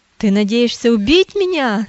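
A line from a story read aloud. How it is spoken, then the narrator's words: Shouting. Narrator (Russian): закричал он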